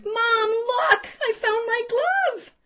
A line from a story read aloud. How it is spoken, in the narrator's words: Shrieking with delight, pride written all over her face, Sydney exclaimed